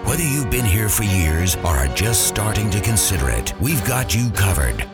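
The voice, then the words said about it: Deep announcer voice. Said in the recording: “Deep Voice Guy”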